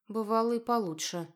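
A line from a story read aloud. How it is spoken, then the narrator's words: Barely audible reply. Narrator (Russian): отозвалась едва слышно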